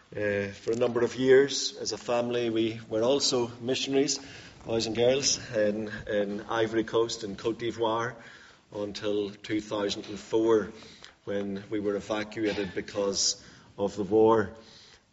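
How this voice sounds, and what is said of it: Northern Irish accent. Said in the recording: “You'll detect probably from my accent that I'm not from Wales. I'm originally from Northern Ireland”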